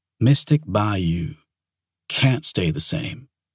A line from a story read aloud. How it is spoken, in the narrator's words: Danny said gently